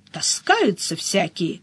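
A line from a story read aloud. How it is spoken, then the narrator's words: Grumbling. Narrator (Russian): проворчала Мышильда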